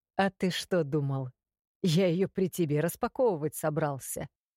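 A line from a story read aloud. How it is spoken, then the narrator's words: Snort close to ear. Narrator (Russian): хмыкнули у меня над ухом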